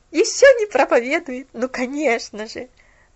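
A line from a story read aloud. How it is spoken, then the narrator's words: Laughing quietly to herself. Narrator (Russian): Засмеялась про себя Делла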